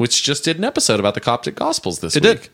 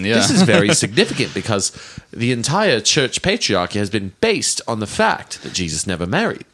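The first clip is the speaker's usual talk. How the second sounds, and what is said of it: Put-on Australian accent. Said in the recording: “talking in an Australian accent”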